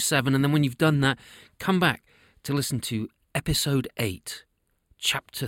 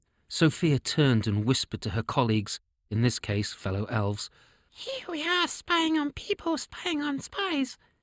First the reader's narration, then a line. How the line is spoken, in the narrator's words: she giggled